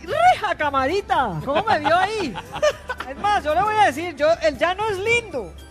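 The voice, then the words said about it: Put-on Llanos regional Spanish accent. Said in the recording (Spanish): “se le fue el acento ... A mí se me pegan todos los acentos.”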